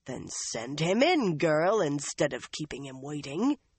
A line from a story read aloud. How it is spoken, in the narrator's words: Elida growled